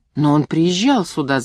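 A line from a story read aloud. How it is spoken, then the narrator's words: Shouting. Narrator (Russian): закричала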